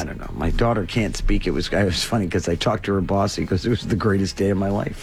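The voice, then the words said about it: Slightly squeaky, strained voice. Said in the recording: “My voice is still kind of, so I apologize. ... A little squeaky.”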